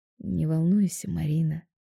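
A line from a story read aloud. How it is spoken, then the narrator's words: Gentle. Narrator (Russian): мягко говорит он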